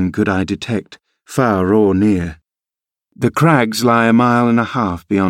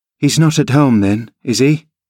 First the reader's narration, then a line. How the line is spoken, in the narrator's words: I panted, quite breathless with quick walking and alarm